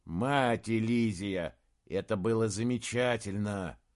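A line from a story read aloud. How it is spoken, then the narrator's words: Relieved sigh. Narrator (Russian): Саймон вздохнул впервые за долгое время, ощутив, что мир перестал быть полностью враждебным местом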